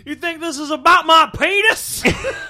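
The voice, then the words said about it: Western cowboy character voice. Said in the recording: “to do a Western voice... Do a little Ames for us?”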